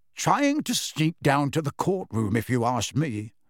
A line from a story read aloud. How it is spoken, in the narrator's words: said Mr